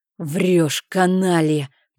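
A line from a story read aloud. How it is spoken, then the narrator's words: Furious growl. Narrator (Russian): прорычал в бешенстве Бафор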